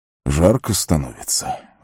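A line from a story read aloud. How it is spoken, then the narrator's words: Breathed out. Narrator (Russian): выдохнул он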